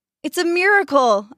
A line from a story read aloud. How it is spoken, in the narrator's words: others exclaimed